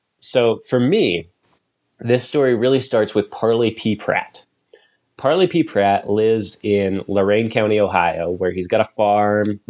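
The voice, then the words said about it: Nasal voice from a cold. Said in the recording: “I have a cold this week, so if my voice sounds a little bit nasally”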